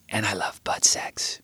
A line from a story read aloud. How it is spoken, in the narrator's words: Bo whispered in my ear